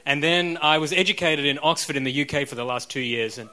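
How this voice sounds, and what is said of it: Australian-influenced accent. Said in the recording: “I then lived in Australia for about 35 years ... that's where my crazy accent comes from”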